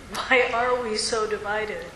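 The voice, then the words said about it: Whiny complaining voice. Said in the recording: “how do you say that in a complaining voice ... Use that complaining voice”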